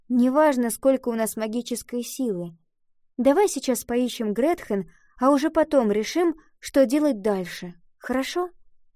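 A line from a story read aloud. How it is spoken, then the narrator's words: Sighing. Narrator (Russian): Ива вздохнула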